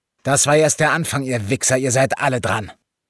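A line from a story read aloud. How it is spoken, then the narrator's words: Smallest one roaring. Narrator (German): Und der Kleinste von ihnen brüllte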